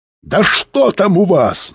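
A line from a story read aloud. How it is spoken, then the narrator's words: Yelling. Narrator (Russian): заорал Быков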